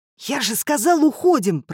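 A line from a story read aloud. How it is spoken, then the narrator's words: Hissed. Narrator (Russian): прошипел Семён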